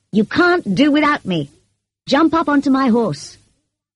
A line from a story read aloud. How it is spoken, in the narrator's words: he shouted